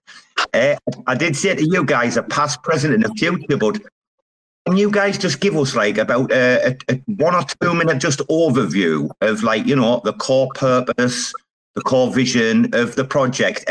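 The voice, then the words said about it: Hoarse, croaky voice. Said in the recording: “I've got a bad chest today. I've got a frog in my throat.”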